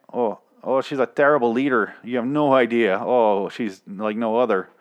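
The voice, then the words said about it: Put-on Canadian accent. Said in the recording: “I'm saying leader weird. I'm saying it with a Canadian accent.”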